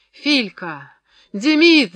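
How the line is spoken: Strained shout breaking stupor. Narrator (Russian): закричал, наконец, Фрол, сбрасывая через силу оцепенение

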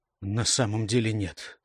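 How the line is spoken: Calm answer. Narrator (Russian): спокойно ответил Гейб

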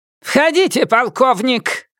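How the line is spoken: Bark. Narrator (Russian): рявкнула Хорикс

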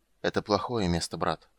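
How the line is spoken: Weary undertone. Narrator (Russian): вполголоса сказал Рейстлин, устало

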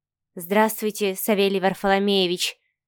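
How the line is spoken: Quiet, flustered reply. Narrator (Russian): тихо ответила Маша, не зная, куда деть руки, глаза, всю себя

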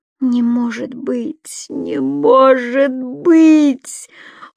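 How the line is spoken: Almost groaning. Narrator (Russian): Он снова едва не застонал

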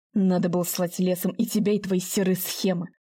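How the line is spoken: Grumble. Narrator (Russian): буркнул Семен Николаевич

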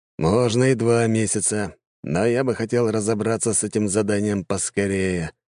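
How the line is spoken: Sighing. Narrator (Russian): вздохнул тот

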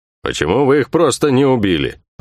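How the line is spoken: Hurt gruff grumble. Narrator (Russian): проворчал Бух-Бух, и в его грубом голосе слышалась обида

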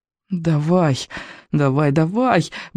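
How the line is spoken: Desperate muttering. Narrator (Russian): бормотал он, отчаянно

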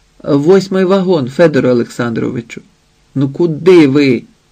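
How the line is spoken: Said sternly. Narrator (Ukrainian): мовила суворо

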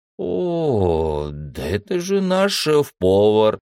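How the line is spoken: Surprised drawl. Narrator (Russian): удивленно протянул Харрис

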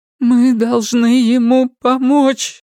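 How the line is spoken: Repeating, bursting into sobs. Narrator (Russian): повторила Перион и разрыдалась

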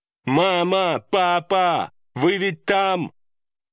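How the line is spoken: Loud shout. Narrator (Russian): Громко прокричала Чивон

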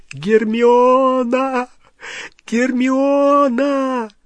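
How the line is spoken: Yelling. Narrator (Russian): Рон снова заорал

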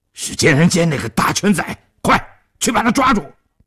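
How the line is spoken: Loud bellowing shout. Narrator (Chinese): 崩牙驹一愣之后，大声喝叫道

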